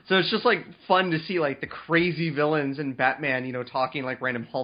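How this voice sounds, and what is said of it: Usual voice. Nothing is said of it.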